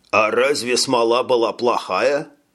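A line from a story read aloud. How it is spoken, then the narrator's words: Plain. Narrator (Russian): спросил тот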